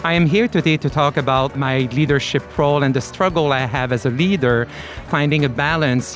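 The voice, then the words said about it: French Canadian accent. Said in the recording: “I am originally from Canada, Quebec, so you hear a little accent. This is a French accent”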